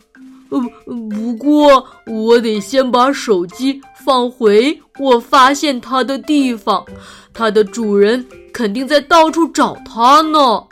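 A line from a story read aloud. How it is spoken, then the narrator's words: Loud answer. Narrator (Chinese): 布鲁诺大声的回答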